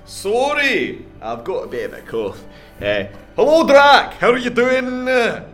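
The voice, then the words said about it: Monster character voice, Scottish accent. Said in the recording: “I almost adopted your accent there ... I've got new throat since last time I seen you. Pretty sure I stole it from a Scotsman.”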